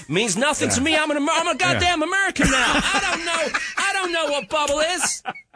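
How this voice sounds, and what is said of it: Put-on white American accent. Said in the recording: “That was obviously a white dude... Your impression... Of America... that was a white American... That's pretty good white American... I thought I was in America when you were talking”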